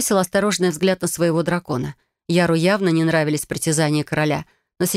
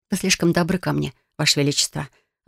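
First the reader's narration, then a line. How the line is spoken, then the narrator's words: Rather dry reply. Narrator (Russian): откликнулась достаточно сухо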